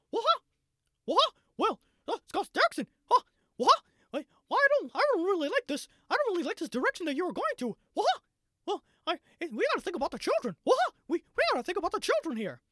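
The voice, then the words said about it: Cartoon mouse character voice. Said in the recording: “Mickey Mouse voiced ... my worst Mickey Mouse impression that I've ever done in my entire life”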